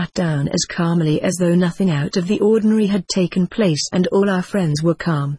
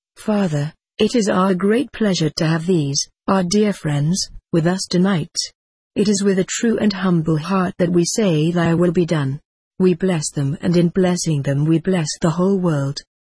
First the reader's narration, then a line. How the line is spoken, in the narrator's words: in a measured, reverent voice, said